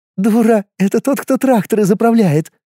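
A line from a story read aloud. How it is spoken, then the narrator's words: Muffled girlish laughter. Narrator (Russian): Прикрыв рот ладошкой, засмеялась ее конопатая подруга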